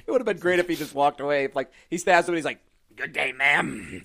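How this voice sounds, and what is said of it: Imitates another person's voice, spitty. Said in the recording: “doing the Nick Nolte voice, my pop filter is covered in spit”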